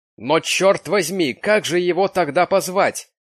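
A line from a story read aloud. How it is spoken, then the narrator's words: Uncle shouting irritably. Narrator (Russian): крикнул дядя с большой раздражительностью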